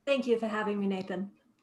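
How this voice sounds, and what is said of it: Speaks in a character voice. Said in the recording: “In character voice, too. I love it.”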